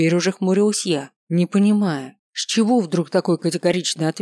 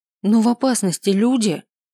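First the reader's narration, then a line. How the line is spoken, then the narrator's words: Exclamation. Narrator (Russian): воскликнул я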